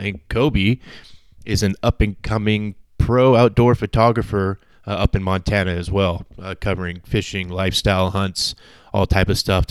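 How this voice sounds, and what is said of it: Voice sounding sick. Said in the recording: “I was dealing with a little bit of a sickness. You can hear it in my voice. I wasn't 100%”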